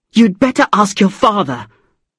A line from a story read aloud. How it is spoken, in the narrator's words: she said angrily